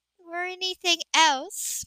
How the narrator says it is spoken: Meredith added on a soft laugh

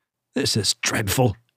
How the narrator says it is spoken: he murmured

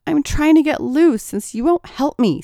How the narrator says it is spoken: snapped Tracy

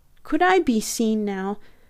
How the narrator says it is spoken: I pleaded

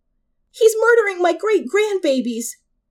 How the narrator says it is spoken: screamed a woman in her mid-40s

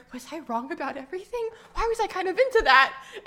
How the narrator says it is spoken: muttering

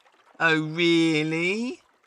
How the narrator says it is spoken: sneered the elephant

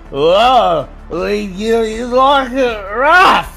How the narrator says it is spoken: he slurs

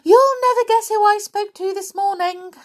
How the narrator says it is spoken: exclaimed Little Miss Chatterbox

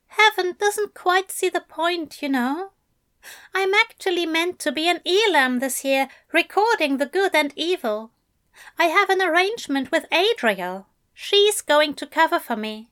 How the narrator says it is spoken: Aziraphale said, and then, a little more sadly

